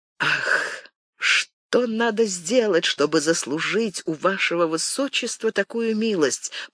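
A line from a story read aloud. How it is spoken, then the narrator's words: Whispered. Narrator (Russian): прошептал Бекингем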